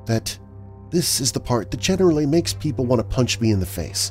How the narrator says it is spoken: Lucy said quietly

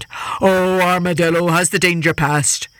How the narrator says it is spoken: the tiger called out

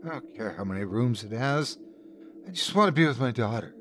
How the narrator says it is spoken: My wife looked at him with tear-glazed eyes and muttered

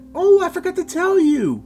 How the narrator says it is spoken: his mother interrupted excitedly

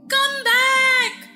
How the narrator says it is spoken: she screamed

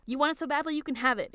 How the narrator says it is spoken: Akito shouts

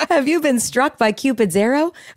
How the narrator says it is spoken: Frankie sighs

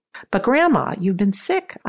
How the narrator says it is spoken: exclaimed

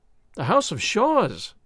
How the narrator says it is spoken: I cried

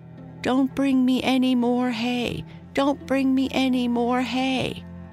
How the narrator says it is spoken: he cried out as loud as he could

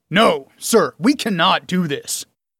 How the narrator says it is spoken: Radric barked

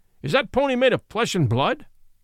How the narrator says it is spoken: he cried in a stern voice

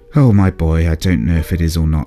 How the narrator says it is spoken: said Dad wearily

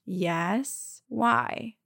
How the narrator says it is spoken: slowly asked

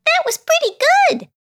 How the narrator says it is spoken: chirped one of the owlets

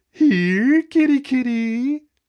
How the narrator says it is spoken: called in his reedy voice, a hideous, mocking mimicry of the way that the red-haired woman called

